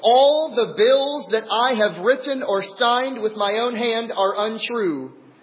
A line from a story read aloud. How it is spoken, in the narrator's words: He blurted out in a loud voice